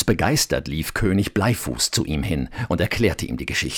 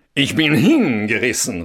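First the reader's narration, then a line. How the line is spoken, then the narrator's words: Called out. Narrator (German): rief er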